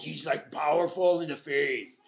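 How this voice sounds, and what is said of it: Arnold impression. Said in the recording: “That's my Arnold. It's my old Arnold impression.”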